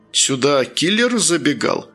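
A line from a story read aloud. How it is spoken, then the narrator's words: Laughing question. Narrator (Russian): смеясь спросила Никея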